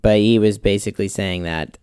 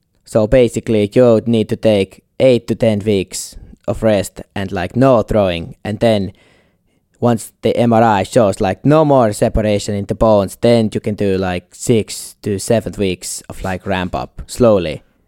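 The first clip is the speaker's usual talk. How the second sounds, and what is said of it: Convincing put-on Finnish accent. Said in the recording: “I'll do my best Finnish accent here... That was shockingly good... That was really good... I would have instantly believed you're finished”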